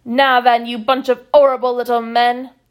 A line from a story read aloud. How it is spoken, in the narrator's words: roared Fickett's